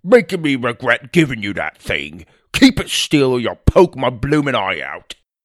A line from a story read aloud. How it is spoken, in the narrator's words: barked